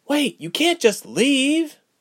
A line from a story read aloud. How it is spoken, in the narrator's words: Ilse cried